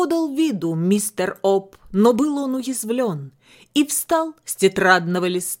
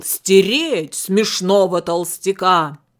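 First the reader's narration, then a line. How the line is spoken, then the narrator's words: Thundering voice. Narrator (Russian): голос прогремел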